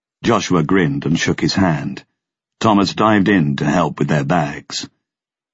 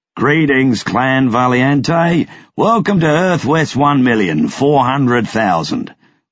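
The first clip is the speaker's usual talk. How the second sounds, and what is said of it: Thick Australian accent. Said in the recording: “His accent was thick Australian.”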